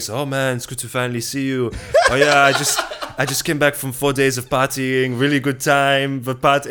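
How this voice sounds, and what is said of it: Terrible put-on French accent. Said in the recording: “You did do a terrible French accent.”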